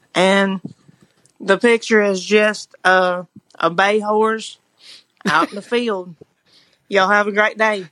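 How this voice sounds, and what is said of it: Natural Southern accent. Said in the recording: “that was a great accent ... her southern accent's so good ... Sounds like she comes right naturally, though.”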